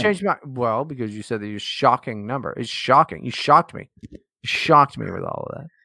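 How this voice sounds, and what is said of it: Slightly slurred drunk speech. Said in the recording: “I didn't realize how fucking drunk I am now at this point. I'm not slurring my words, am I? ... A little bit.”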